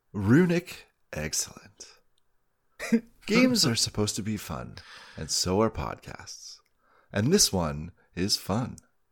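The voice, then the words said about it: Smooth radio announcer voice. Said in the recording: “sweet, sweet radio voice”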